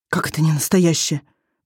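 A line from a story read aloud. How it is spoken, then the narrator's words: Whisper. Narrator (Russian): прошептал Иссор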